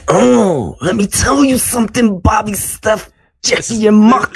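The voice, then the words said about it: Poor Macho Man Randy Savage impression. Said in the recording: “This is a terrible Macho Man impersonation.”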